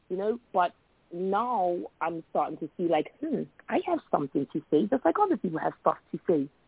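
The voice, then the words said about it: Speaks with a noticeably different accent. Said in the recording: “everybody makes fun of me and my accent ... my accent is a little different from somebody else”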